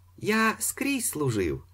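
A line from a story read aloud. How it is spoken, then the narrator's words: Cheerful old man. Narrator (Ukrainian): сказав старий весело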